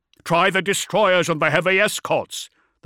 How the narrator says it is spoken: the Marshal barked

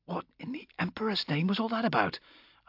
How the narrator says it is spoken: I whispered to Amberlee

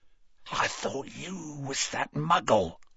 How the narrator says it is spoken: whispered Morfin

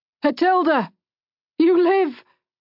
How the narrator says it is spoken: One of the men in the group suddenly called out

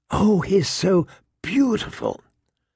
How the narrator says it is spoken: Sansa's fervent whisper

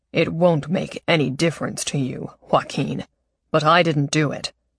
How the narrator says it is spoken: Don said in his deep voice

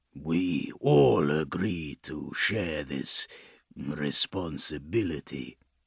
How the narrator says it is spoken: Krakendoom rumbled

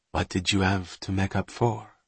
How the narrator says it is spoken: Bonterre asked gently

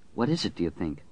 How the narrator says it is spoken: Franny murmured

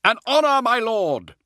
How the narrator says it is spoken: Hadziel shouted back

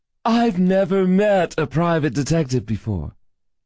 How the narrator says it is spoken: she cooed at me

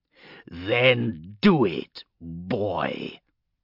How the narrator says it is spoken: he growled

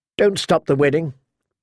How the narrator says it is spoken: she blurted

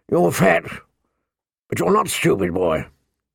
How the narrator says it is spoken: the old bear said gruffly

